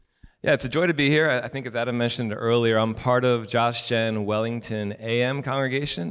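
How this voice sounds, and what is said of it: American accent. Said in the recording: “I sound a little different than most people you hear in this country... the American accent that, uh, that I still have”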